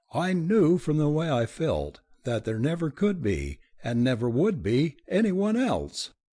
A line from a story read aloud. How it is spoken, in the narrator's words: she said, laughing and flushed, and meeting his eyes with a sort of defiant courage